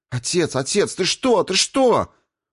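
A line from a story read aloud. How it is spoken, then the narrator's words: Sharp cry. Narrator (Russian): вскрикнула Саата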